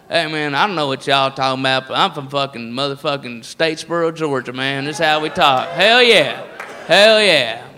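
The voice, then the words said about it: Put-on redneck Southern accent. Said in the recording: “the redneck voice is all over the place. And it's not just the South”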